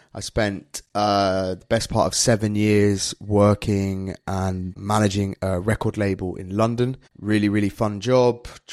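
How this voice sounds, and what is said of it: British accent. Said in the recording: “You can probably guess from my accent, I'm from the UK.”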